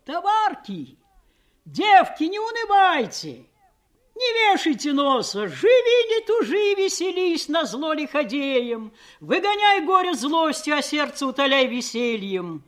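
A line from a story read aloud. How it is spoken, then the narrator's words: Loud shouting. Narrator (Russian): такие, как Просковея, кричали на весь плот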